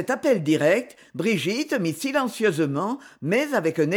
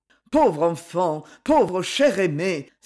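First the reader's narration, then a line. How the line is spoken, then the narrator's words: Exclaiming. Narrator (French): s'écria-t-il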